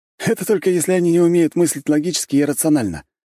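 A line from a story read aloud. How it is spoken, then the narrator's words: Snort. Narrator (Russian): хмыкнул Свилейн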